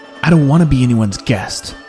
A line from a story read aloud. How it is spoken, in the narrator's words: snapped back Cubby